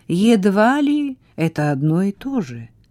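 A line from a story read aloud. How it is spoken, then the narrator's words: Soft objection. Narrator (Russian): мягко возразил Вильям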